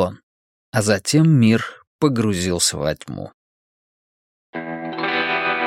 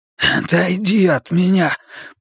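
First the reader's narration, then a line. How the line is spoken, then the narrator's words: Hoarse. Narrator (Russian): прохрипел парень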